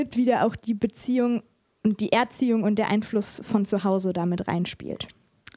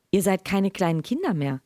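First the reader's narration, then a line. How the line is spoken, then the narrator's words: Plain, mother. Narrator (German): sagte Mama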